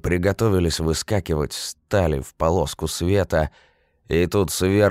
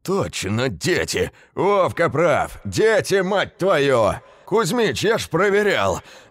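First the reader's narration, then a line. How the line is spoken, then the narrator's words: Loud shouting. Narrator (Russian): Громко кричал кому-то в проем дядька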